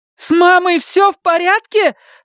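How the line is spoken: Shouting into phone. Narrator (Russian): закричала она в трубку

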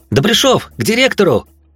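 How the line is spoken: Hasty shout. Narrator (Russian): Зёма и, выкрикнув сообщение

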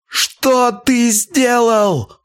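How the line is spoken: Yelled aloud. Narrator (Russian): заорал он уже в голос

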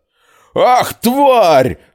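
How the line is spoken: Yelling. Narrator (Russian): заорал Лус

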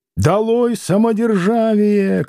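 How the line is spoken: Crowd shouting everywhere. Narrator (Russian): кричали всюду в толпе

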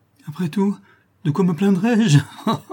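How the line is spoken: Exclaimed with sinister laugh. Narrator (French): s'écria-t-elle avec un éclat de rire sinistre

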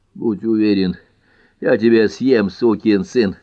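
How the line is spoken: Breathless wheeze. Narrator (Russian): задыхаясь, просипел Хауи

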